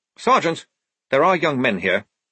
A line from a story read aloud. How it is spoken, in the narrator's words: snapped Blouse, blushing